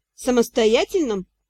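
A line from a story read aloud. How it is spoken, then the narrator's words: Snorting. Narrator (Russian): хмыкнул Ти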